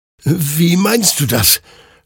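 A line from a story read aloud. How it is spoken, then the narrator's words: Confused stammer. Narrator (German): stammelte Hector verwirrt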